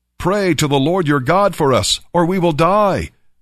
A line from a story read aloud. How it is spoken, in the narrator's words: they cried out to Samuel